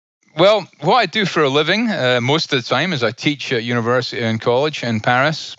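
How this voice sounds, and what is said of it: Noticeable accent. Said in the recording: “I love your accent”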